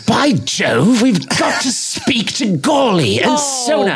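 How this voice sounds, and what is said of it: Bad put-on British accent. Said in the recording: “your British accent is ridiculous ... Bad.”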